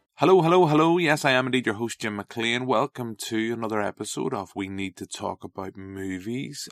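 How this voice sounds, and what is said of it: Northern Irish accent. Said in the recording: “with a Northern Irish accent”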